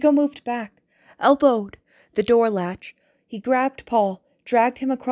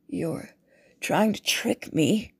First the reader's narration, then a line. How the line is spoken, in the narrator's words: Chigo muttered